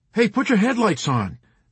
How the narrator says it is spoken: Nately shouted

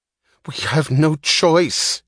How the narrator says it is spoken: he cried

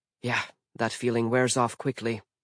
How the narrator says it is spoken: Mallory muttered

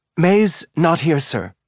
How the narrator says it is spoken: said, her voice tight and breathy at the same time

